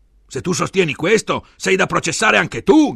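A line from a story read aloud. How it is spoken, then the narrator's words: Shouted. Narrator (Italian): gridava Enrico al difensore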